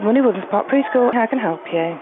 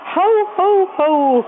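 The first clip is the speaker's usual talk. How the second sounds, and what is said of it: Santa Claus impression. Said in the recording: “Can you do an impression of Santa?”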